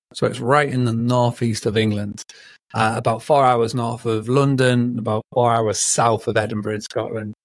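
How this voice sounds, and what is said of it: Northern English accent. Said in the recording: “as you can tell from the accent, I'm from over in the UK, and I'm from a little town called Scarborough”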